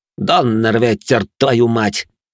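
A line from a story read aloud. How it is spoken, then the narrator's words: Through gritted teeth. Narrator (Russian): процедил темноволосый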